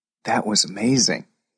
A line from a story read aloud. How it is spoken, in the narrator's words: whispered Max